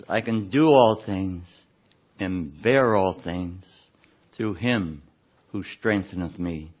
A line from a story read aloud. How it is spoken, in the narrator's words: the loving submission that calmly says